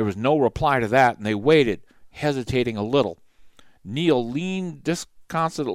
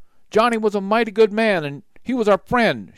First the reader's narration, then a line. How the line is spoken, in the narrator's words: Short shouted